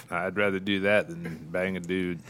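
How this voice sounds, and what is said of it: Impression of Don Harvey. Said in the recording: “Is that a good Don Harvey impression?”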